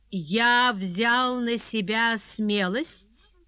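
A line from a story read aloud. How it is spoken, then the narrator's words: Genial singsong drawl. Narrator (Russian): отвечал незнакомец благодушно певучим голосом и сильно растягивая слова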